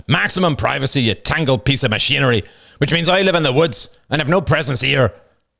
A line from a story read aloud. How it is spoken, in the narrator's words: Finally, Roman snapped